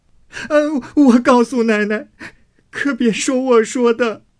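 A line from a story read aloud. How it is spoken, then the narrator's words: Frightened maid tearfully pleading. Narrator (Chinese): 唬得那丫头一行躲，一行哭求道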